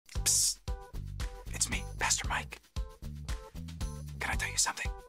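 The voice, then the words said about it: Whispering. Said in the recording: “I don't know why I'm whispering”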